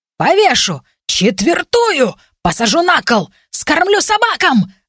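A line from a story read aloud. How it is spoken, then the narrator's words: Furious yelling. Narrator (Russian): орал он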